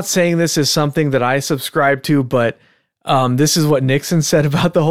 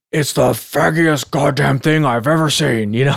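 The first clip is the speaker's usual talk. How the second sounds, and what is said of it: Imitates another person's voice. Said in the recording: “your Nixon impersonation ... that was a great impersonation ... Nixon has a very, very particular accent”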